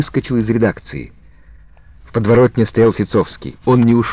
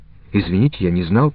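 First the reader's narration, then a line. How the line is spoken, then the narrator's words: Muttered. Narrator (Russian): пробормотал я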